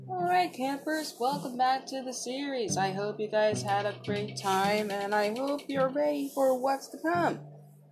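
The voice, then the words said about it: Bad impression of cartoon host. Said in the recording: “That was a really bad impression of trying to be Chris from the series.”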